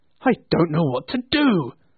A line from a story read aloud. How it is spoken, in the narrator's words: cried Scrooge, laughing and crying in the same breath